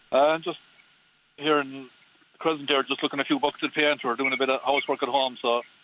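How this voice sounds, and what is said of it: North Tipperary Irish accent. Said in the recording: “Like a Tipperary accent ... A good North Tipperary accent”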